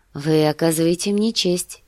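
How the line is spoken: Affectionate. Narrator (Russian): ответила она ласково

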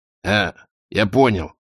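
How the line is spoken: Snapped. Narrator (Russian): огрызнулся он

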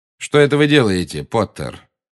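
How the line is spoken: Cold question. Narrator (Russian): холодно, как всегда, спросил Снег

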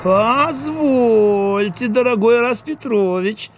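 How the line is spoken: Cheeky drawl. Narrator (Russian): развязно протянула, то есть протянул Дуэнья

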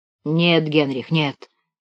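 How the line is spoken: Muttering. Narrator (Russian): бормотал он

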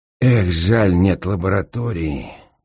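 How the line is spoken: Sigh. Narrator (Russian): вздохнул инженер

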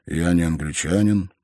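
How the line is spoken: Sad reply. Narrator (Russian): грустно ответил Стемон

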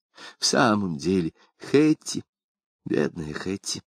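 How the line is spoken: Quieter voice. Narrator (Russian): продолжала она более тихим голосом

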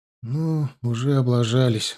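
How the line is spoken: Sighing. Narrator (Russian): вздохнул Витька

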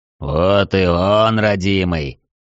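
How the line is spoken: Purring under breath. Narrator (Russian): Промурлыкал себе под нос Трайнул

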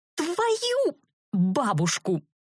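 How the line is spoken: Hissed at puppy. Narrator (Russian): зашипела я на щенка

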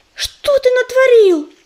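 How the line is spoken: Frightened gasp. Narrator (Russian): испуганно ахнула она

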